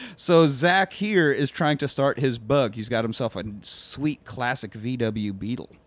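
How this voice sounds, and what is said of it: Usual voice. Nothing is said of it.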